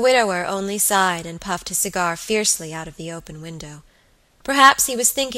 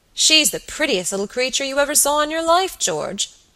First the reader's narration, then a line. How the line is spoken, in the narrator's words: he cried